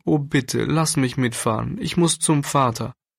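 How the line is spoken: Sobbing plea. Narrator (German): schluchzte Klärchen

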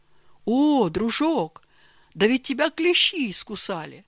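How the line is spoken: Exclamation. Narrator (Russian): воскликнул Георгий Иванович

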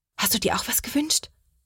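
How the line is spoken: Whisper. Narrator (German): flüstert Sophia

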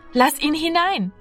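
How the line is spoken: Called out. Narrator (German): rief Martina

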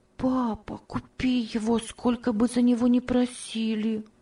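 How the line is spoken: Soft whisper, child. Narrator (Russian): тихо шептала Ева

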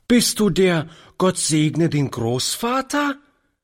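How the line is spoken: Lively child's call. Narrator (German): rief die Kleine lebhaft

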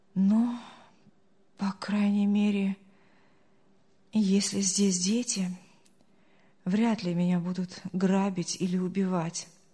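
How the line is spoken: Relieved sigh. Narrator (Russian): облегченно вздохнул Артур

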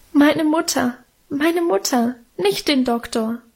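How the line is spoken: Sobbing. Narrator (German): schluchzte ich

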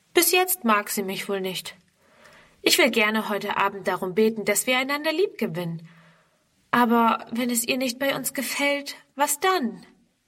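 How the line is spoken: Sighing. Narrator (German): Onkel Friedrich seufzt

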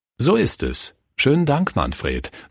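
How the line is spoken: Plain. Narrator (German): sagte Pastor Fritz

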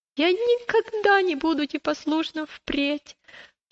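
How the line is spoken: Sobbing child. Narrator (Russian): прорыдал маленький христианин

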